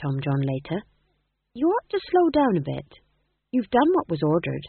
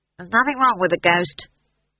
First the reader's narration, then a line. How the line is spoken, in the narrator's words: snapped Howell